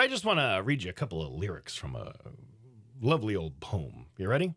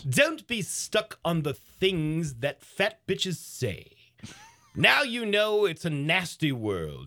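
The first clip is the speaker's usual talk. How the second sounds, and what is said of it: Put-on posh English accent. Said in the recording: “I'll read it in a nice English voice.”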